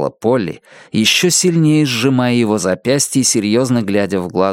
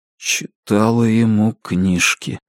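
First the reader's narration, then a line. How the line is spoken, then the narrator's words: Muffled mutter, strange voice. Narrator (Russian): глухо пробормотал он, не узнавая собственный голос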